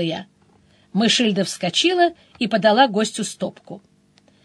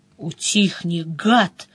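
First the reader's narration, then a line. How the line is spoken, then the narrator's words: Mouse hissing. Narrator (Russian): зашипела мышь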